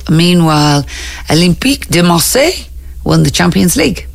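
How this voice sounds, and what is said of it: French accent on a club name. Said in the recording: “Why do you always do the French accent? ... Olympique de Marseille. ... But normal people would say Marseille.”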